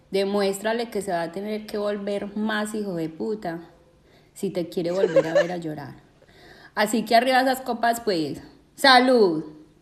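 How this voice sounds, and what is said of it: Colombian paisa accent, somewhat exaggerated. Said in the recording (Spanish): “tiene, un acento paisa que, me encanta ... que lo exagera un poco”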